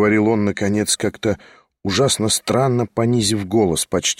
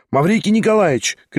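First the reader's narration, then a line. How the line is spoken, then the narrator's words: Shout. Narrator (Russian): крикнула она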